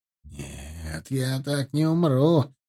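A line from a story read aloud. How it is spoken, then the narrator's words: Whisper. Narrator (Russian): прошептал он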